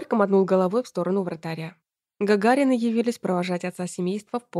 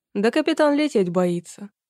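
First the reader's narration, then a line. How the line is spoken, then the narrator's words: Chuckling. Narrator (Russian): хохотнул Борька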